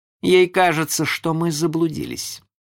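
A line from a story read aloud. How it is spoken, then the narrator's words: Cold. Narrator (Russian): ответил он холодно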